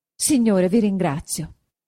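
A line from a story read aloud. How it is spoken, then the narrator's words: Very happy exclamation. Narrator (Italian): esclamò Agnese doppiamente contenta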